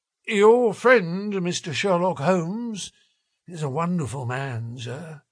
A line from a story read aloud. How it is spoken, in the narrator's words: said he in a husky and confidential voice